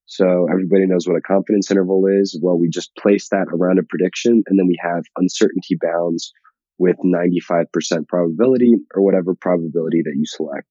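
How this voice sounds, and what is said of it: Slightly scratchy voice. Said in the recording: “my voice is a little scratchy. I'm feeling a little bit under the weather.”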